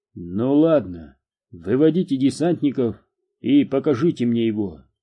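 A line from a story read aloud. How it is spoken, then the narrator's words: Plain. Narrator (Russian): сказал полковник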